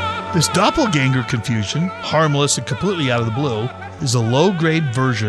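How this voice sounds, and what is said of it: Usual voice. Nothing is said of it.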